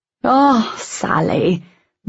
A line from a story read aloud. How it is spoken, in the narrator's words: the other woman sighed through a thin smile